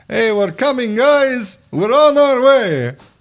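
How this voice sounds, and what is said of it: Put-on Russian accent. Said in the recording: “I do have a decent Russian accent. At least my friends say so.”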